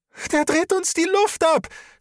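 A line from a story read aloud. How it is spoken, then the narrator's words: Tearful scream. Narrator (German): schrie Aurelie und Tränen liefen über ihre Wange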